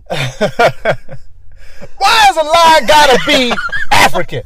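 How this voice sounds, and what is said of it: Chris Rock impression. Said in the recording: “Chris Rock? ... do that impression”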